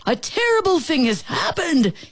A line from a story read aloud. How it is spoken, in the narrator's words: he shouted